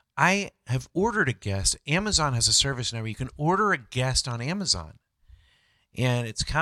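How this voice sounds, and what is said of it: Usual voice. Nothing is said of it.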